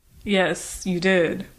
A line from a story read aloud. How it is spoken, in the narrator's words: agreed Devlin dryly